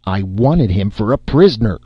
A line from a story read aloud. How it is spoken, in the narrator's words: growled Parr